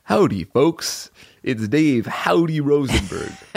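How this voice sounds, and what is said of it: Imitates another person's voice. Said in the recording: “Is that your Dave Rosenberg impression?”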